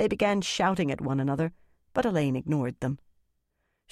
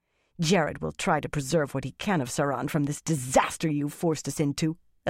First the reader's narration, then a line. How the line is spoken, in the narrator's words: Elenia snarled